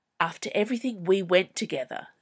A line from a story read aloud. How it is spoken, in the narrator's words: hissed